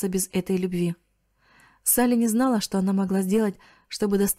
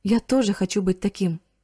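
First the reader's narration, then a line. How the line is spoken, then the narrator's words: Plain. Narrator (Russian): сказал Риц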